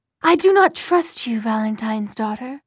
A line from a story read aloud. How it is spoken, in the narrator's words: said